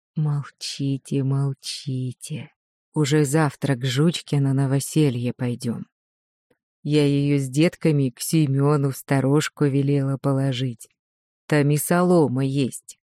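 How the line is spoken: Quiet, grandmother. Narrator (Russian): Тогда бабушка сказала тихонько

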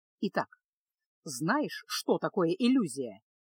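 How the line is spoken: Serious instructive question. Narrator (Russian): серьезным поучительным тоном спросил Кайл

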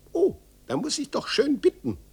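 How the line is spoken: Thin little voice. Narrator (German): rief ein dünnes Stimmchen

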